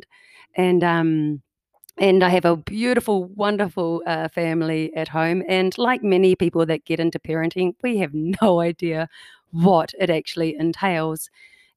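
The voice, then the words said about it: New Zealand accent. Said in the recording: “as you can tell by my accent, I do not come from Canada. I'm a New Zealander, from New Zealand.”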